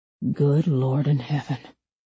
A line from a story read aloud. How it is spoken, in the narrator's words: a man whispered